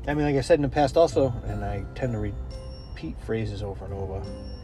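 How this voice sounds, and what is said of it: Subtle Worcester Massachusetts accent. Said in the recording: “I hear your accent. Are you from Boston?... I'm from Worcester. And there's a different accent, though it may be subtle. I think we sound a little more like people from Rhode Island.”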